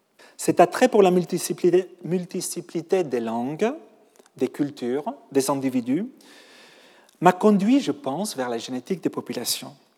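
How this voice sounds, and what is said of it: Catalan Spanish accent in French. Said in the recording (French): “Je suis depuis 20 ans un Parisien, malgré mon accent, mais aussi un Catalan, un Espagnol”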